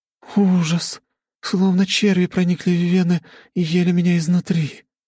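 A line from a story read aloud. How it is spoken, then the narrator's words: Girl moaning. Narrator (Russian): простонала девушка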